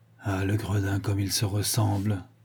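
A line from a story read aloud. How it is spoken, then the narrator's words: Naive murmur. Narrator (French): murmura Ganimard naïvement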